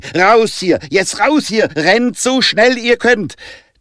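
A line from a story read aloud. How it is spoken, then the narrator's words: Shouted. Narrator (German): Jonah schrie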